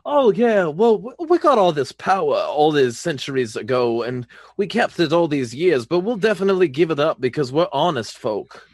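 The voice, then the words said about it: Exaggerated old Southern accent. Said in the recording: “my fucking terrible like uh, old southern accent and fucking like uh, acting like a plantation owner”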